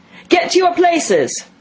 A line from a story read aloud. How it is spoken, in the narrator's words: shouted the Queen in a voice of thunder